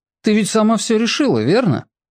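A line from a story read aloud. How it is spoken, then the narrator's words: Wry grunt. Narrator (Russian): хмыкнул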